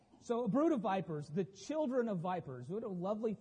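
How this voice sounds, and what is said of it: Usual voice. Nothing is said of it.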